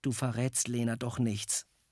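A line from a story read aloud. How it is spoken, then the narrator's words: Quiet question. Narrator (German): fragte leise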